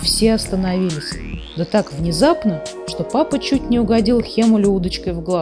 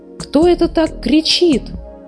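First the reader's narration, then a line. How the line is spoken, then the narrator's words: Agitated exclamation. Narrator (Russian): взволнованно воскликнула муми-мама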